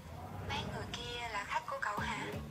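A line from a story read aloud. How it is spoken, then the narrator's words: Soft uncertain question. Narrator (Vietnamese): Lâm Hàn không biết, đành khẽ hỏi hắn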